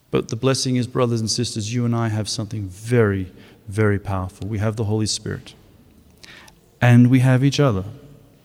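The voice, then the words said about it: Australian accent. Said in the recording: “you may have noticed from the accent, I'm not from around here. When I was leaving Australia”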